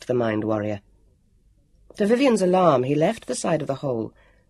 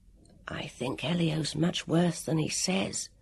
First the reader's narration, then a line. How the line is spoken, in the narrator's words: he whispered to Vivian